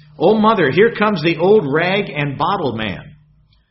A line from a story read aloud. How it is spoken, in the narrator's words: one of his girls cried out from the living room window